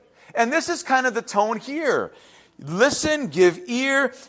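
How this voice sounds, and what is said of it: Usual voice. Nothing is said of it.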